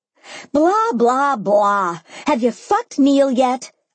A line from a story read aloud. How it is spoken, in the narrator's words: screeched